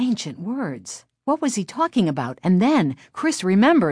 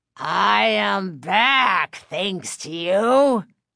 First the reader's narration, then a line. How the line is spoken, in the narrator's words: the dummy growled